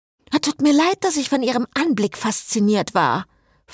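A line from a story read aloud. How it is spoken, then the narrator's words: Snapped. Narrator (German): fauchte Cecile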